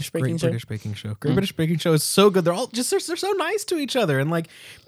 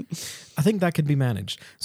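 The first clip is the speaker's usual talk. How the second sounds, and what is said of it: Put-on British accent. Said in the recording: “You are now required to speak the rest of the episode in a British accent.”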